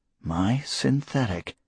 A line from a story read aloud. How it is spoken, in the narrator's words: Moore said very faintly